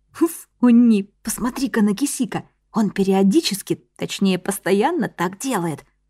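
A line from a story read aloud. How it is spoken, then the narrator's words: Whisper. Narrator (Russian): прошептала Чихе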